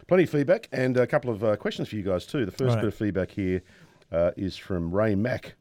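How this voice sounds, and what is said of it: Croaky, hoarse voice. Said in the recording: “I still have a cold, and I still am very croaky ... sexy voice ... It's not remotely sexy”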